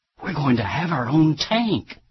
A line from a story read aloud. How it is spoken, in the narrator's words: the mayor of Keene, New Hampshire, leaned over to a council member and whispered excitedly